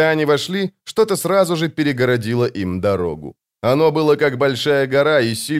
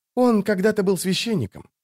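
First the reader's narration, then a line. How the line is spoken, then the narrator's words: Whispering. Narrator (Russian): прошептал поэт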